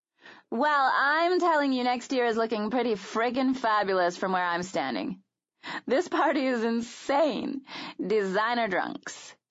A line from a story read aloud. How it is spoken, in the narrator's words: giggled, her own sobriety in question